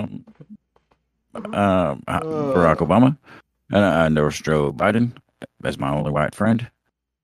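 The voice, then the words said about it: Poor imitation of another person's voice. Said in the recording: “we just pretend we are doing impressions and just talk in voices that don't make sense to the voices we're trying to do”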